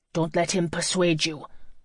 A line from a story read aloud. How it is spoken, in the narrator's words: Joey said through clenched teeth